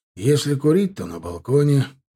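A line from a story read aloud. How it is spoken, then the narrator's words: Weary. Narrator (Russian): устало произнес Милар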